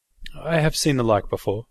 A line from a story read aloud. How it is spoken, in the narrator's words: I replied uneasily